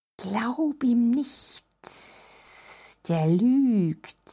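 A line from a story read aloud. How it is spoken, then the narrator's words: Snake hissing in ear. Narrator (German): zischte ihr die Schlange ins Ohr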